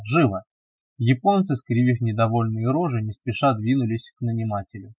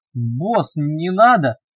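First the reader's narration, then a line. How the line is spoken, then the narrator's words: Howling wail. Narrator (Russian): немедленно взвыл тяпа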